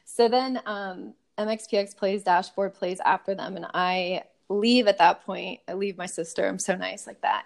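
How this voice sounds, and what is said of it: Strained, fading voice. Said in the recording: “I'm like totally losing my voice right now.”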